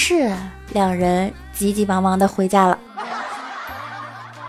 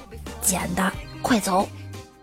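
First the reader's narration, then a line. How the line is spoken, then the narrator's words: Low voice. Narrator (Chinese): 低声说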